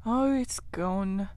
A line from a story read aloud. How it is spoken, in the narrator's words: sighed the rat